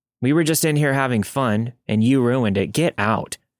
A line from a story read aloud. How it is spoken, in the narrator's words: said coldly